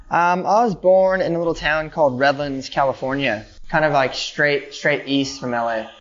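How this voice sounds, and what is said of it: Californian American accent. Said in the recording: “I can tell from your accent”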